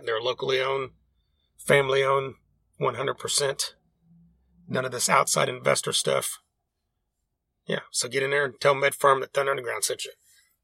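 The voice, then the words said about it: Rough voice, sounds sick. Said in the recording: “Excuse my voice, by the way. I don't know what's going on. I'm not sick, but I sound like it.”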